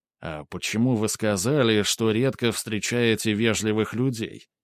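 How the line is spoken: Awkward muttered question. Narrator (Russian): пробормотал он, чтобы как-то сгладить неловкую паузу

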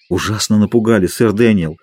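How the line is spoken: Sighing at remembered fright. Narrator (Russian): сказал Дик, вздохнув при одном воспоминании о своем испуге

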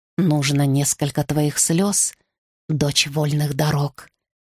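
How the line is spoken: Gentle, priestess speaking. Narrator (Russian): мягко сказала мне храмовница

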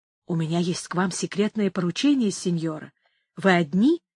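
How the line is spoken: Quiet question. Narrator (Russian): тихо спросил

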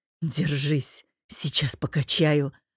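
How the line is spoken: Hoarse rasp. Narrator (Russian): прохрипел

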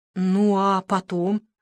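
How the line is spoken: Forced out. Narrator (Russian): выдавила

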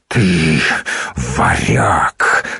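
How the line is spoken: Wheezing, defeated exhale. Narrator (Russian): со свистом выдохнул побежденный

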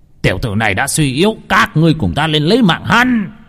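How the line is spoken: Sudden shout. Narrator (Vietnamese): Bỗng nhiên tên trưởng lão bên cạnh Vương Phong hét lên

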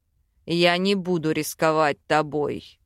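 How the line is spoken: Growled. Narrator (Russian): Зарычал в лицо Вел

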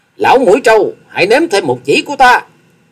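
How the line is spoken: Elated thunderous shout. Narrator (Vietnamese): càng phấn chấn tinh thần, thét lên rồi tiếng thét vang như sấm

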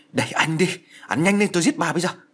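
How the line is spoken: Loud shout. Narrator (Vietnamese): mụ vừa quát lớn

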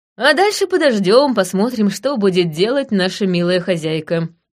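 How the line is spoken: Plain. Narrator (Russian): сказала я

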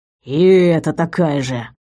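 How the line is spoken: Grumbling. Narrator (Russian): проворчал Вейр

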